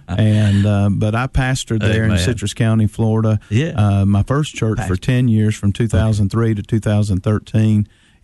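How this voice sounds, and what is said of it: North Georgia accent. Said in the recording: “my North Georgia accent”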